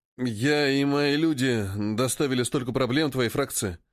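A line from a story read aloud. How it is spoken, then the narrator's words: Uncertain. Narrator (Russian): неуверенно произносит он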